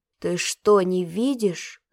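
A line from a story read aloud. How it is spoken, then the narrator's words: Growl. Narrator (Russian): зарычал Стасик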